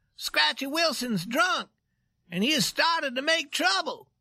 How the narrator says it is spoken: He cried

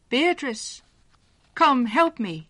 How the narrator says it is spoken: called loudly

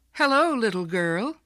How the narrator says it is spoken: a young man called out cheerfully

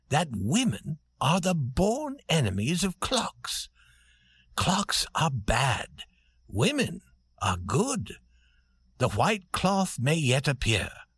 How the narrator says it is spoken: said Prince Michael in his soft voice

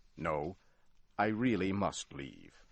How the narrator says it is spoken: said firmly

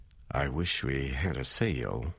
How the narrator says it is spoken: he said

